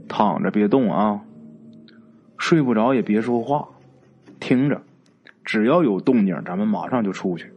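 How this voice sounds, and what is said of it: Quiet, hushed speech. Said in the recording (Chinese): “小声跟他说”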